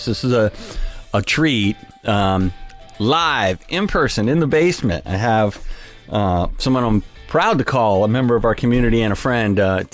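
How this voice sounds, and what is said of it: Excited, energetic voice. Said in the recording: “I am very excited right now. You can maybe tell in my voice.”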